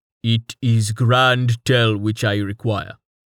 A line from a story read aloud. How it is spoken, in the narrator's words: he grunted